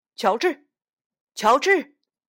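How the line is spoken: Calling out. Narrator (Chinese): 有人叫他

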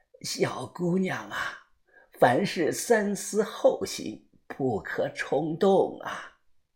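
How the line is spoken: Hoarse old woman. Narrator (Chinese): 老太婆…她声音沙哑的又说着

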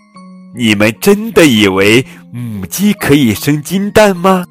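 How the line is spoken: Laughing hen. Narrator (Chinese): 小母鸡笑着 对其他母鸡说

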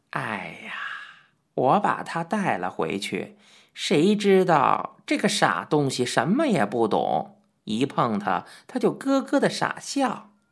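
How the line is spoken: Helpless sigh. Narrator (Chinese): 老龟头无奈的叹道

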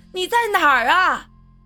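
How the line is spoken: Frantic shouting. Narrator (Chinese): 他疯的一样…喊叫道

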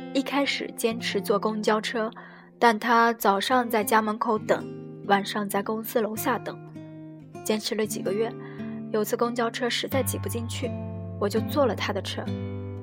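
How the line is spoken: Soft, quiet. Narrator (Chinese): X 低头轻声说

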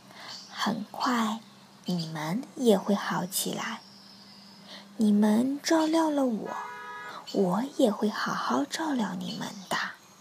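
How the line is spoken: Gentle. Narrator (Chinese): 他温柔的对大家说

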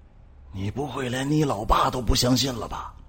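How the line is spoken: Low voice. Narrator (Chinese): 湖北 低声说道

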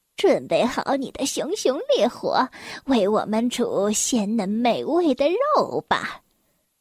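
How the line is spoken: Old witch giggling foolishly. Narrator (Chinese): 老巫婆痴痴的笑道

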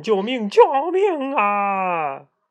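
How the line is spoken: Shouting for help. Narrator (Chinese): 县官在井里大喊

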